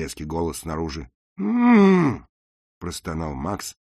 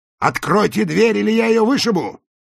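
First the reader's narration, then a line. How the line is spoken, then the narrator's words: Shouting. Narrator (Russian): закричал голос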